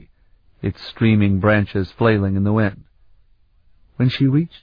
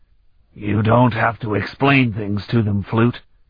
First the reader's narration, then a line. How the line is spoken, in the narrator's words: Kirik told her in that gruff voice of his, a voice so familiar